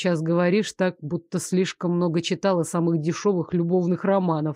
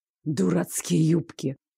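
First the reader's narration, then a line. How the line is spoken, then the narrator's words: Hiss. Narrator (Russian): прошипел Лоренс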